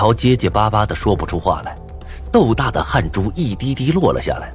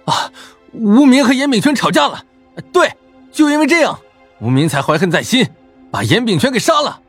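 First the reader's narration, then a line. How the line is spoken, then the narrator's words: Loud sudden realization. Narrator (Chinese): 他才如梦初醒般大声叫道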